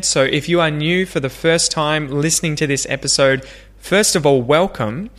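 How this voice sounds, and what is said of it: Australian English accent. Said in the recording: “pronounce these phrases just like me, to practice your Aussie English accent”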